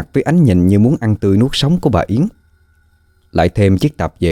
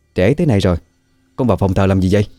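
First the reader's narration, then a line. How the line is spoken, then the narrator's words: Loud question. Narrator (Vietnamese): Bà Yến hỏi lớn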